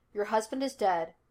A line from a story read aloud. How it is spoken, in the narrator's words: Laster told her firmly